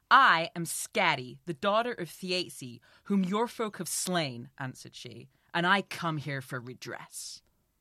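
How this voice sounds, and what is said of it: Assertive American Wonder Woman accent. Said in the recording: “It's just an American accent in it, but she like has a real assertiveness to it. I'm going to do one, which is essentially an American accent, but a Wonder Woman accent.”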